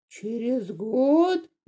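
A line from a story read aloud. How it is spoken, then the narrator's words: Roar. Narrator (Russian): взревел он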